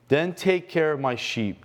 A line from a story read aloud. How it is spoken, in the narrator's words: Jesus said